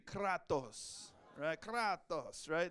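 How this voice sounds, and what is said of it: Mock Greek-Italian accent. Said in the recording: “Can you say it like your Greek ... That was maybe a little Greek and Italian, like a Nacho Libre accent”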